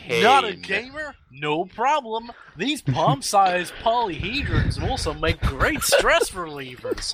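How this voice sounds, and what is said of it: Put-on American accent. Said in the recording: “American accent”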